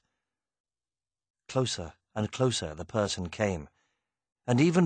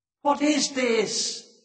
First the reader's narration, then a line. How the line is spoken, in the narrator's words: She cried